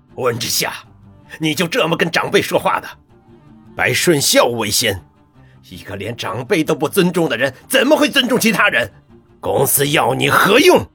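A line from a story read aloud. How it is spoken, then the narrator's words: Furious, accusing. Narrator (Chinese): 温博远大怒，冲温之夏问责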